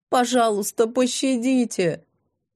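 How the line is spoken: Desperate sobbing. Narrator (Russian): она забилась в их руках, рыдая

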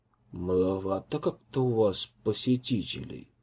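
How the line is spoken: Muttered. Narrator (Russian): пробормотал он

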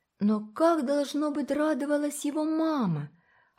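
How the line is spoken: Quiet reply. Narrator (Russian): отозвалась негромко Уна

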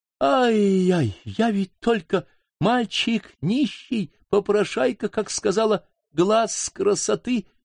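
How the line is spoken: Exaggerated horrified moan. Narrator (Russian): стонал он с преувеличенным ужасом

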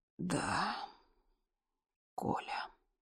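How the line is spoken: Quiet. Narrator (Russian): тихо сказал доктор

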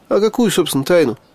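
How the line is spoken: Smirking grunt. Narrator (Russian): хмыкнул я

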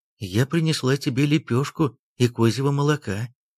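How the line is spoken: Plain. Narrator (Russian): ответила женщина

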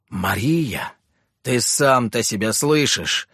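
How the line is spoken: Groaning. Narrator (Russian): простонал Иларион

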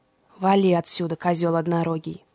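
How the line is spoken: Grumbling. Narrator (Russian): проворчал Фавнир, когда Индрик уже не мог его слышать

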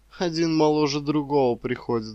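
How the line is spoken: Sighed. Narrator (Russian): вздохнула она

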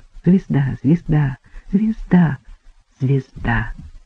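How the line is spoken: Repeating tenderly, cheerfully or sadly. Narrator (Russian): принималась снова твердить в ревущий эфир нежно, весело и печально, смотря по настроению

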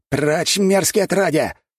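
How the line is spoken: Man's shout. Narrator (Russian): выкрикнул мужчина в лохмотьях

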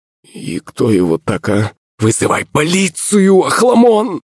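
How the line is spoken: Servant's sudden cry. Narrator (Russian): Вскрикнул кто-то из прислуги

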